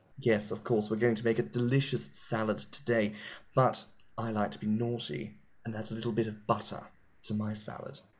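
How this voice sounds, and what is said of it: Deep, loving British TV-chef voice. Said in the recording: “a sort of rotund, sort of deeper set British accent, talking quite lovingly and intimately about calories and fat and flavor ... Was that serving you, Nigella Lawson, at all? ... Yeah, that was pretty good.”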